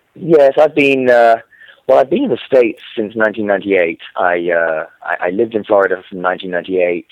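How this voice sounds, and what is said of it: English accent. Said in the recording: “I grew up in England, if you can't tell from my accent... he has an accent... I haven't lost the accent... the English accent”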